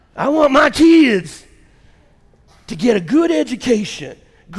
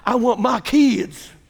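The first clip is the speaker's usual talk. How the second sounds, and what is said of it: Weak attempt at Southern accent. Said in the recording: “Let me see if I can do a Southern accent. ... Forget it. I can't do it.”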